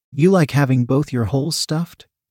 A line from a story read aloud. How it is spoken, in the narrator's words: I asked